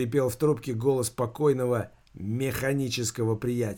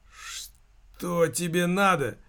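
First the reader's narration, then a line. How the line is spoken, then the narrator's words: Strained, forced words. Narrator (Russian): выдавил Никита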